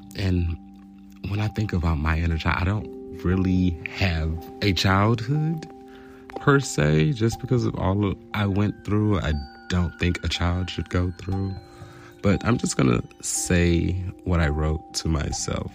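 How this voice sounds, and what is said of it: Soft, light gentle voice. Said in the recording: “my voice is kind of like soft, because whenever you talk to a child, you want to just be in a lighter mood”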